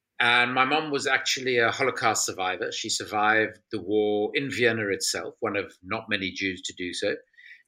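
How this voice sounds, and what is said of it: South African accent. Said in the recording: “I'm South African, as most people can probably hear from my accent.”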